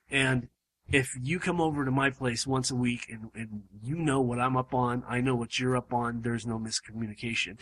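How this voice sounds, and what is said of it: Strained, fading voice. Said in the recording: “as you guys probably can hear, I'm losing my voice ... my voice is literally starting to go out”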